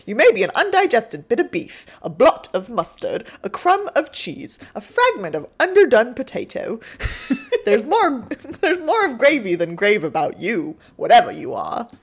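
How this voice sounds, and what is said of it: Put-on British accent. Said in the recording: “I want to do this in a British accent. ... I'm so sorry to anyone who's British that's listening right now.”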